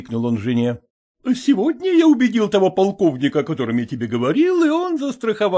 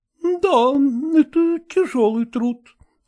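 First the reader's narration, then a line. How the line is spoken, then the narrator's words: Sighing. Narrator (Russian): вздохнула Андросова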